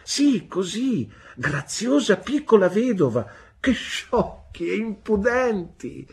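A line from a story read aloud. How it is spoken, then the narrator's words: Laughing muffled shout. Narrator (Italian): gridò mia madre, ridendo e coprendosi il volto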